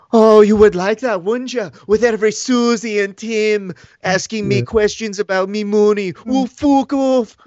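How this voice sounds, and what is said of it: Irish accent impression of another person. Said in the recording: “With his Irish accent ... doing an impression ... it sounds awesome in Irish”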